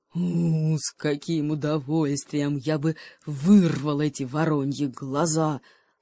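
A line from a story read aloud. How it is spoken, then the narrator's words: Angry cheetah growl. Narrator (Russian): злобно прорычал гепард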